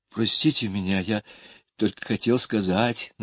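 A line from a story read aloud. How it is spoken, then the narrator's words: Timid. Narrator (Russian): начал робко Майкл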